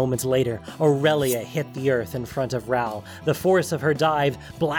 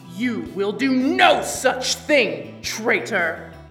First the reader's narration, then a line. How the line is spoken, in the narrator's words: The voice thundered down from above